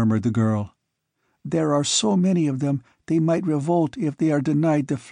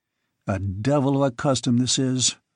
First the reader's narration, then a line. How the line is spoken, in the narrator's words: growled Conan